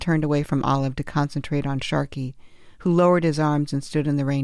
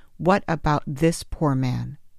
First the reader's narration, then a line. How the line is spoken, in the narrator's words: Her voice cracking with anger, Olive said